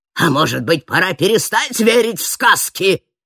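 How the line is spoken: Growled. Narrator (Russian): прорычал смотритель

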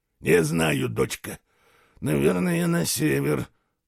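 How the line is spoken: Mumbled. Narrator (Russian): пробормотал тот

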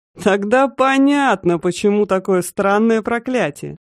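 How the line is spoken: Chuckling laugh. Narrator (Russian): Ведьма хохотнула

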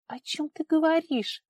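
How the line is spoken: Confused question. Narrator (Russian): растерянно переспросила Варя

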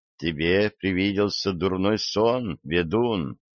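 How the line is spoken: Girl speaking quietly. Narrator (Russian): тихо сообщила девушка

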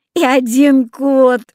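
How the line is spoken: Laughing. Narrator (Russian): засмеялась Люся

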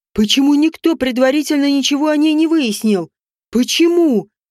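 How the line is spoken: Yelling. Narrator (Russian): орал король

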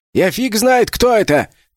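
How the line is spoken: Shout. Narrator (Russian): крикнул Винтик

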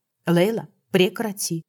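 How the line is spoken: Stern interruption. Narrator (Russian): Глубоко вздохнув и придав голосу строгости, перебила я

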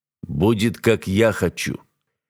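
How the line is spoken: Curt, threatening. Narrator (Russian): отрезая угрожающим тоном

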